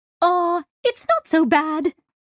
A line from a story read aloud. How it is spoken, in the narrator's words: chirped the pixel plant